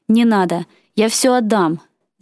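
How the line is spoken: Shouted. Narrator (Russian): закричал

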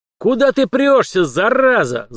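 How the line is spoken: Yelling. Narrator (Russian): завопил Дугин

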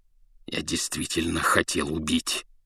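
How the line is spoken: Growling. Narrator (Russian): зарычал он

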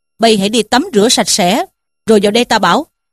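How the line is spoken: Laughing. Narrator (Vietnamese): Trí Thâm bật cười mà bảo rằng

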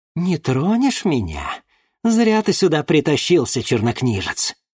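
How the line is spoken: Hiss. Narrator (Russian): прошипела

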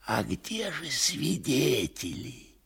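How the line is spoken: Whispered into ear. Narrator (Russian): шепнул в другое ухо Коровьев

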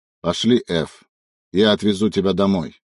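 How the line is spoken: Dry, curt. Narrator (Russian): сухо сказал Сава

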